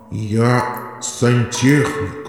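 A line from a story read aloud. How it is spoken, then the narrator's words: Tragic bass. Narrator (Russian): отвечает трагическим басом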